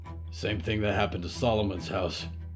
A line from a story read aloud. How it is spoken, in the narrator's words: Hector grunted